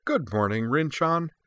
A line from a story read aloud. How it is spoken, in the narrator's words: Yui declared cheerfully